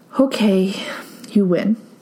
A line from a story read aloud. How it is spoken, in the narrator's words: sighed out